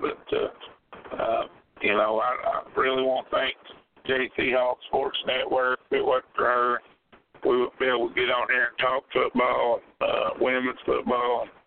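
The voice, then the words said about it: Slightly hoarse voice. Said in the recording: “I'm still a little under the weather. ... Been out in that weather, so I'm a little bit hoarse.”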